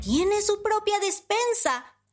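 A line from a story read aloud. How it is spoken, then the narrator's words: Surprised exclamation. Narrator (Spanish): exclamó Panambí sorprendida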